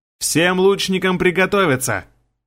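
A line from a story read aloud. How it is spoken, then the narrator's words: Shout. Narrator (Russian): крикнул я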